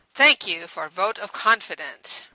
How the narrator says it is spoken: Radic responded dryly

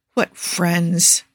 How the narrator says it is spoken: Quinn mutters

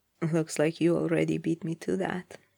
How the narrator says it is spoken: said gently

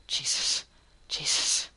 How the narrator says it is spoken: low under his breath

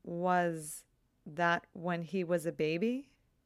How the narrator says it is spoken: Connie asks

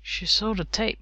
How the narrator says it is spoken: mumbled

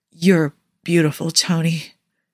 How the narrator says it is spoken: Steve rasped

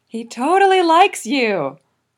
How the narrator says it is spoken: Vegeet yells, in the same voice that he uses to herald the dusk

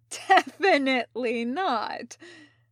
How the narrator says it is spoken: said the newcomer, almost chuckling

